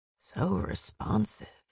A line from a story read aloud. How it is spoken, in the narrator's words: purred in a voice she'd never heard